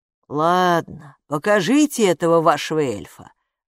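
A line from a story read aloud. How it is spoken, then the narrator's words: Father sighing. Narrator (Russian): вздохнул папа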